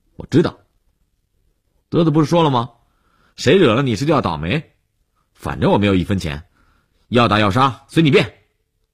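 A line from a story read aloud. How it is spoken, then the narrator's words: Defiant raised voice, interrupting. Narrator (Chinese): 悠悠无欲则刚地放大声音打断了李文海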